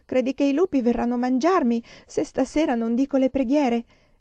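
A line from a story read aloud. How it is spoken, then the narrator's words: Whimpering. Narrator (Italian): piagnucolò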